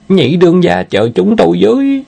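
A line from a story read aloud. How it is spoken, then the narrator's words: Panicked cry. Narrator (Vietnamese): Kêu lên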